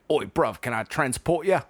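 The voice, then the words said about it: Put-on British accent. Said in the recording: “British accent”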